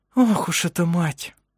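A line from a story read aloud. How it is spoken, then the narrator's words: Sighing. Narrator (Russian): вздохнула Элизабет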